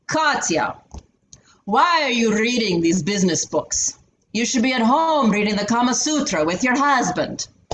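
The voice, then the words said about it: Put-on accent imitating another man. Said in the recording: “I'm going to do it in an accent.”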